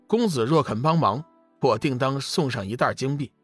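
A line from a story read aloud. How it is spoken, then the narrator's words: Low, smiling. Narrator (Chinese): 龙宇微微一笑，低声道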